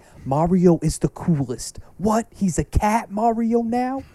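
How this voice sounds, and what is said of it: Good imitation of another person's voice. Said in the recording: “He talks like that. ... It's a pretty good impression.”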